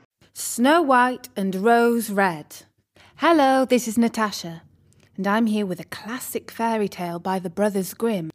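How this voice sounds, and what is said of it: Lovely voice with a real accent. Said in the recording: “a very lovely voice and a real accent”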